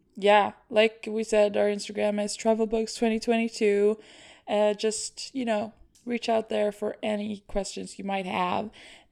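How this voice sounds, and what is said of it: Strained, tired hoarse voice. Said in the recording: “my voice is very weird this episode, but I have been shouting a lot ... So my voice is tired as heck.”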